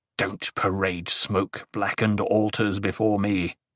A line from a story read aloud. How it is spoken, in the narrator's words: Paul growled